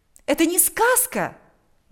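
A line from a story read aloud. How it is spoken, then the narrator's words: Exclaimed. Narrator (Russian): воскликнула она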